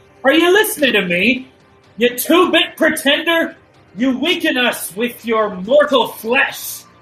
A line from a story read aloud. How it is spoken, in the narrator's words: he's just going to yell